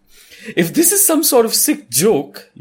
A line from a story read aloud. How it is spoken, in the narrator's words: you say indignantly